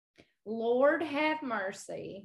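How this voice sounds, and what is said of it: Weak put-on Southern accent. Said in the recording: “I want to hear your Southern accent ... No, it's terrible ... It's loose. It's not there yet.”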